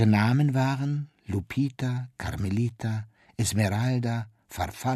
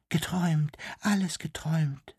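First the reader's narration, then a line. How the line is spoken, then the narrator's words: Whisper. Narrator (German): wisperte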